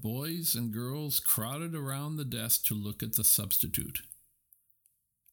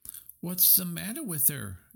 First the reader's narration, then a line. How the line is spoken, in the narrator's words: asked Roy Hart eagerly